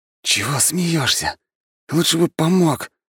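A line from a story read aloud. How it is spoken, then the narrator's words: Hiss. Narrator (Russian): прошипел Фукс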